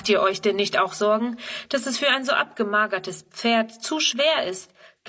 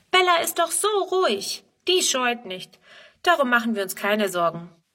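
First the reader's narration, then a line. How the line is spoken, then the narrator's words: Calling out. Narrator (German): ruft Friedrun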